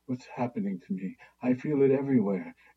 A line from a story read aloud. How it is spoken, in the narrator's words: whispered in a wavering voice